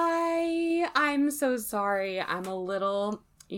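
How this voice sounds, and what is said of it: Usual voice. Nothing is said of it.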